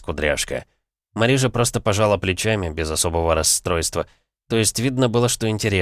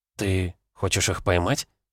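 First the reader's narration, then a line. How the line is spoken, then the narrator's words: Mumbling. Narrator (Russian): забормотала Хлоя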